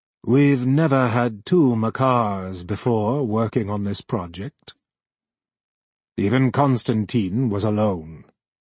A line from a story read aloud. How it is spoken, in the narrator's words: His voice was calm when he said